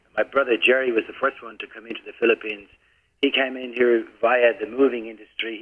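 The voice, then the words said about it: Irish accent. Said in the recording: “You don't sound like you come from the Philippines. You kind of have another kind of accent going on ... I come from an Irish family”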